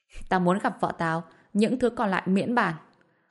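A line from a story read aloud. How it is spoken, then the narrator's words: Cold laugh. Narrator (Vietnamese): Bạch Diệp Phi lạnh lùng bật cười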